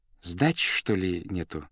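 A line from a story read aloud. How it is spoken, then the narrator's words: Timid question. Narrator (Russian): робко спросил бухгалтер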